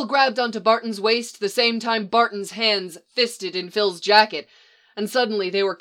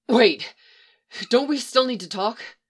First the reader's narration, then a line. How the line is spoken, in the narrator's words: Barton groaned impatiently